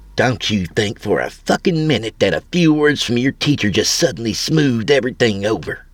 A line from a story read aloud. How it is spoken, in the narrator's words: She hissed